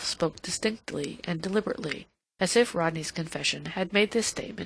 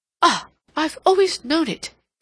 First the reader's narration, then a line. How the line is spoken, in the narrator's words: he cried